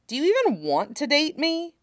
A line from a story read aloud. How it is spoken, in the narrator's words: Tim blurted out